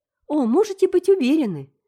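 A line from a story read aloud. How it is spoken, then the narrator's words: Cheerful. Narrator (Russian): сказала Энн весело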